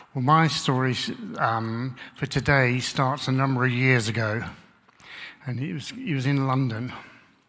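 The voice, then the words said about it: Southern English accent. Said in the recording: “I've got a southern accent, southern England”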